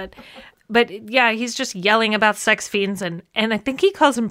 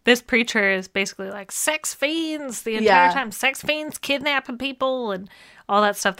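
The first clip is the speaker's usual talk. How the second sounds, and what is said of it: Put-on accent. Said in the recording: “That's not really what his voice sounds like. I don't know why I'm doing that accent”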